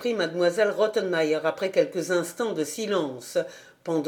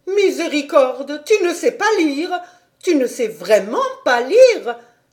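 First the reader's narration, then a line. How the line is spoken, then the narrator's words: Terrified exclamation. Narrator (French): s'écria mademoiselle Rottenmeier au comble de l'effroi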